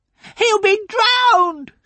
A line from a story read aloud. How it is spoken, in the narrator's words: shouted Sophie